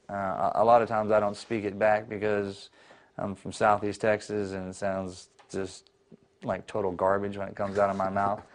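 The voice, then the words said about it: Southern American accent. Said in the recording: “You speak with a southern accent.”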